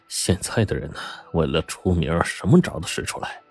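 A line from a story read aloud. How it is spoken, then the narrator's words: Chuckling. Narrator (Chinese): 黄景亮嘿嘿一笑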